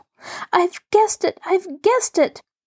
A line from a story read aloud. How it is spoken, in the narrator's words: Maida and Rosie screamed together